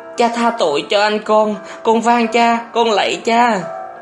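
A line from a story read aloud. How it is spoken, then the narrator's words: Hurried pleading. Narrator (Vietnamese): vội năn nỉ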